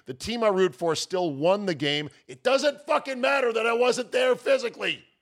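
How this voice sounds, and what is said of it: Yelling, worked up. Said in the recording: “Sorry, am I yelling? I'm yelling now. ... You're getting worked up.”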